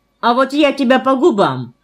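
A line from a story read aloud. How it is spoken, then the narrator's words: Sharp shout. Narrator (Russian): прикрикнул на меня Фома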